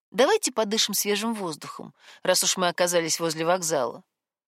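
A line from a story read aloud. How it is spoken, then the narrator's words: Indifferent tone. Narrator (Russian): безразличным тоном предложила Миллеру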